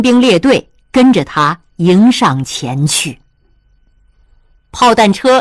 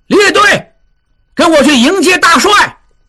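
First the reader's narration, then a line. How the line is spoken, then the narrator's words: Startled urgent shout. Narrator (Chinese): 金勇吃了一惊，急喊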